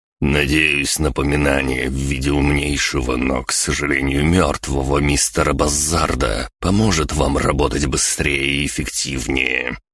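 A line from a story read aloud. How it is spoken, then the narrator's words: Through gritted teeth. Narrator (Russian): процедил Генри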